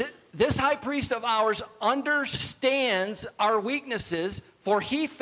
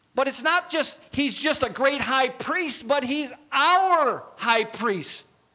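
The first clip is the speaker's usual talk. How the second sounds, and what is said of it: Raised, louder voice. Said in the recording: “I raised my voice... When I get louder”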